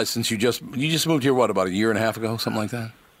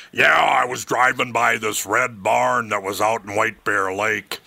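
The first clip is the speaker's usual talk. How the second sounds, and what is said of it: Imitates another person's voice. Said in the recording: “Good impression. ... you're doing a pretty good impression.”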